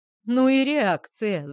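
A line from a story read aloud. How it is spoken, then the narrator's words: Laughing. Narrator (Russian): захохотал вылезающий из сугроба водитель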